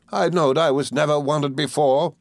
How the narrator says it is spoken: cried Mrs

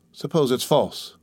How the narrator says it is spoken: said in a gloomy voice

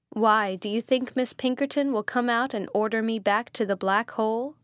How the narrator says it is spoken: said Rebecca, laughing

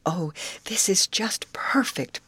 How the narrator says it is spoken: breathed Molly

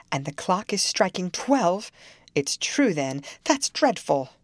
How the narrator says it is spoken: she gasped

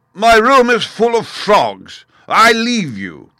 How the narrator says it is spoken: A voice, hoarse with passion, thundered out

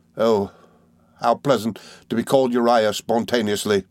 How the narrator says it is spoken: he cried

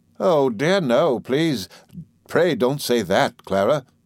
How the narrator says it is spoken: interposed Miss Murdstone angrily

